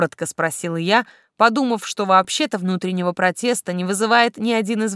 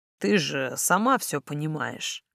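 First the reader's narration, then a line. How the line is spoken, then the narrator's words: Soft, smiling. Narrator (Russian): неожиданно мягко улыбнулся Бернард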